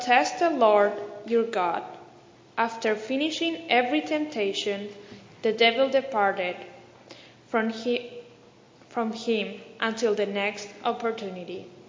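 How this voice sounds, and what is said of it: Ecuadorian-accented English. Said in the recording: “I like hearing the gospel with an Ecuadorian accent.”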